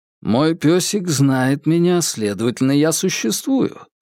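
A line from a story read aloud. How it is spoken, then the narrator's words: Dry. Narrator (Russian): сухо произнес Джеймс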